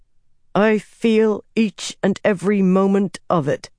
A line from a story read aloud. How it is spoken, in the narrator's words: Avienda said through gritted teeth